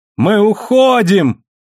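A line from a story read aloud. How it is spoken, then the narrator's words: Joyful exclamation. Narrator (Russian): радостно воскликнул Марзак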